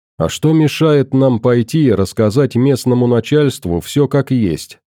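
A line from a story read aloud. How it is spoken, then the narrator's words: Plain. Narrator (Russian): спросил Хорд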